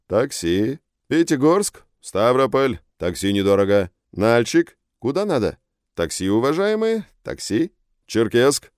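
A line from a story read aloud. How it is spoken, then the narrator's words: Loud calling out. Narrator (Russian): громко говорит Сурен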